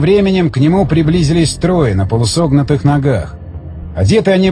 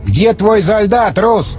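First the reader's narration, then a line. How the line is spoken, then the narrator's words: Shout. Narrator (Russian): крикнул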